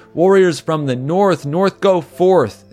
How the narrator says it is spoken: they yelled as they were stampeded under the feet of other warriors

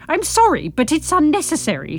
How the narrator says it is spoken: she spluttered

